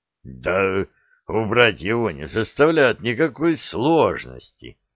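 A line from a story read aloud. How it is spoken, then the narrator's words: Hoarse croak. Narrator (Russian): буквально прохрипел Гейдрих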